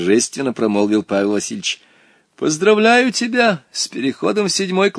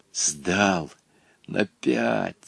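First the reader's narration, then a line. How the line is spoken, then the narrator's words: Boy's whisper. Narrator (Russian): шепотом сообщил Волька своему приятелю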